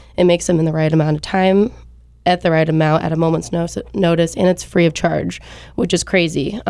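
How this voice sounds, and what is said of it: Stuffy, congested sick-sounding voice. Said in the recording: “If you can hear in my voice, I've actually been battling for the past week and a half just a little bit of a cold ... very stuffy”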